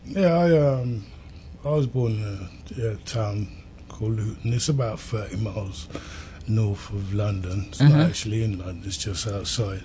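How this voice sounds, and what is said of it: British accent. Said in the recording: “You can tell from his accent that he's not from here. Yeah, he's got that, you know, British accent.”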